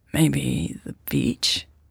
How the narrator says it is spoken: She croaked

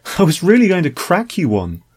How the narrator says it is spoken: Fee laughed nervously

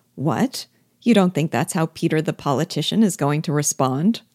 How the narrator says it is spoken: I laughed, said with mock surprise

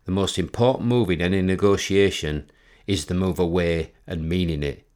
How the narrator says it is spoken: said

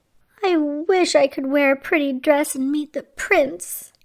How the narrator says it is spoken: she sighed

